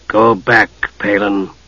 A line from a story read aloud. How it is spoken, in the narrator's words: Raceland said, his voice cold